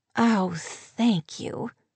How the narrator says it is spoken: she murmured, and sighed expressively

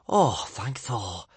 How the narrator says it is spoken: sighed Kamikaze

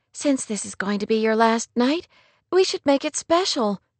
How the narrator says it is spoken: Kate announced brightly

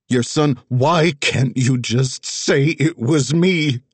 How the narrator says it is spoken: Tessa pleaded, screaming at Wags, then Nola

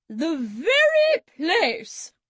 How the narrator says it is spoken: cried Auntie B

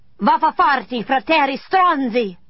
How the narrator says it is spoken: I screamed

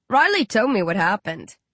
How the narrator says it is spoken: Rage chuckles

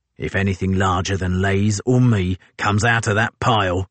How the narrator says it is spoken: he said, almost shouting into Hanford's ear because of the wind roar

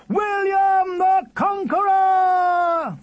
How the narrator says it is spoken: They shouted

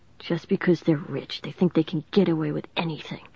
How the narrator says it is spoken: the store clerk muttered

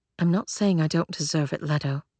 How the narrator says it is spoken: Claire said softly

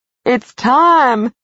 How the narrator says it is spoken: Cal said excitedly

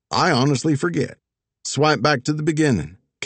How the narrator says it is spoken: Casper said

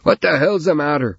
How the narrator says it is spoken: he could hear Trevor shout

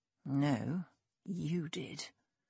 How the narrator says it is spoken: he whispered

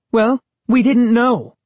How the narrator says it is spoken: Sari snapped

